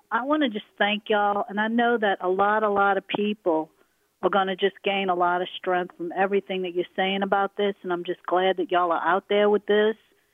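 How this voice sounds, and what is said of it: Louisiana Southern accent. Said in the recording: “thank you for your accent when you called in ... just being from Louisiana. Yeah, I gotta so, yeah, love to hear that.”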